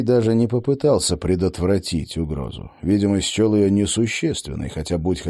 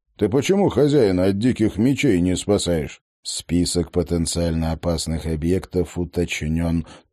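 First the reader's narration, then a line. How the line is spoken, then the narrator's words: Dull-voiced report. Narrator (Russian): тусклым голосом сообщил Кай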